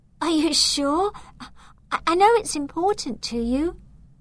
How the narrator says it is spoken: touched by her gesture and stutter

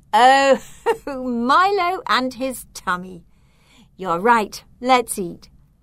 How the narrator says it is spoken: Mum laughed and said

